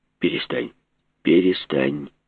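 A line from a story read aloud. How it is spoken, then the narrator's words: Confident and calm. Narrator (Russian): Уверенно и спокойно говорил Глеб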